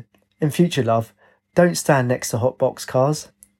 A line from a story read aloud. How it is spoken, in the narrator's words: He laughed and said